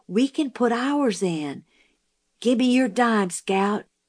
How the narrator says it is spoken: Jim whispered

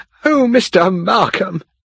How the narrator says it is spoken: she cried

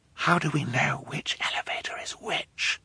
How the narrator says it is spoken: Violet whispered

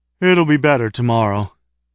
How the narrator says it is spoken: said, still yawning

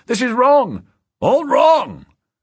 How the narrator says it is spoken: the deputy governor shouting

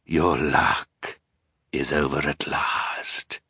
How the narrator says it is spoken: he said in a terrible voice

